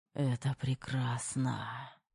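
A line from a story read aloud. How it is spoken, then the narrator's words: Breathed through teeth. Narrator (Russian): Выдохнул сквозь зубы Терех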